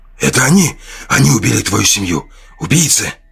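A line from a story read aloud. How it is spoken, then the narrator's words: Hoarse inner voice yelling. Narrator (Russian): Буквально заорал хриплый голос в голове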